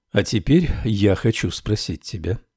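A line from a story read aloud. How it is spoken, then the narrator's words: Quiet. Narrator (Russian): тихо сказал учитель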